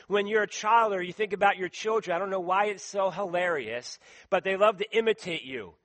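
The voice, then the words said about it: Philadelphia East Coast accent. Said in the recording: “I say wooder. I say radiator, tournament, some of the words from Philadelphia ... people then sometimes imitate my accent from the East Coast”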